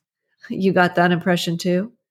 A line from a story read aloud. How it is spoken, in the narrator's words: Tyson chuckled